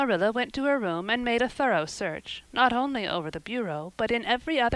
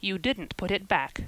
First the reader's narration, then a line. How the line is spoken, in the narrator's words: said Marilla